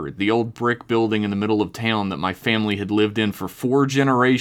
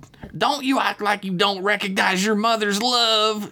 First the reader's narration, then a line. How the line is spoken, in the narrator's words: she caterwauled directly into my ear in that thick West Virginia accent